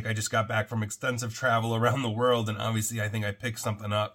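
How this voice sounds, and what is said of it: Sick-sounding voice. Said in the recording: “if you can hear it in my voice, I'm obviously rather sick”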